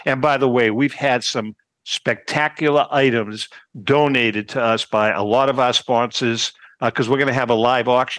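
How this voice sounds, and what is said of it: Boston accent. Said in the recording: “accent, Boston accent.”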